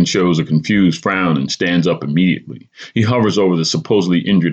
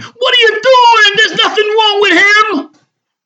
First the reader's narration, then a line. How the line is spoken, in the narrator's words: Vale yells at referee Pine